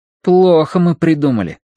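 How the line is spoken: Plain. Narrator (Russian): сказал Колин

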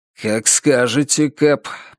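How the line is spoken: Muttered under breath. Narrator (Russian): пробормотал Норман себе под нос

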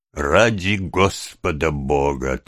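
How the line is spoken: Solemn. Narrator (Russian): торжественно сказал мистер Брунлоу

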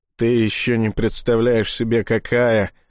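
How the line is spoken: Through gritted teeth. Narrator (Russian): сквозь зубы отозвалась Женя

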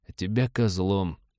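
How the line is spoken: Muttered into comm. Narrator (Russian): пробормотал в замолкший ком-абордажник

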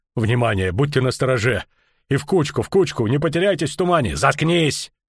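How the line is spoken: Bark. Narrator (Russian): рявкнул Филин

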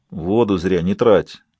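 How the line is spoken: Grumbling. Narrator (Russian): пробурчал Фелл

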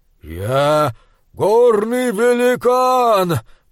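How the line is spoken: Thundering voice. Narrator (Russian): прогремел он

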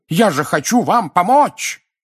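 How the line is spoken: Roaring like wounded hippo. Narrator (Russian): Взревев, как раненый гиппопотам, дядя Вернон

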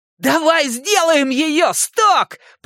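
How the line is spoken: Shouting. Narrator (Russian): прокричал Ричи

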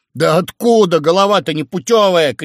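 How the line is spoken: Shouting. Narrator (Russian): кричал Грубин

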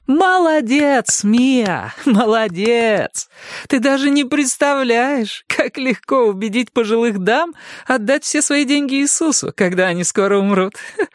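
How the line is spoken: Laughing. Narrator (Russian): Она засмеялась

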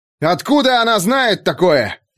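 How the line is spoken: Shouted. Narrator (Russian): закричал он

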